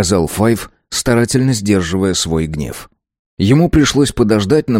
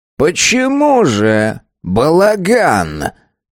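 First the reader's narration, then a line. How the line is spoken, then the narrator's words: Quavering voice. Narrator (Russian): дребезжащим голосом спросил Абель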